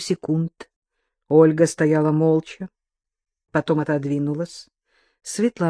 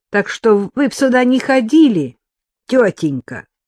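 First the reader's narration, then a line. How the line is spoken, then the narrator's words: Triumphant shout. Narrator (Russian): крикнула Ольга вслед торжествующе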